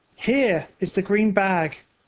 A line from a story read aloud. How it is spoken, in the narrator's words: said Oscar happily